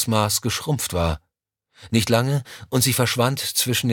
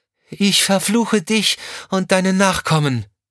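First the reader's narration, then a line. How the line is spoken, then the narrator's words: Calling out. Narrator (German): rief sie dem Mann zu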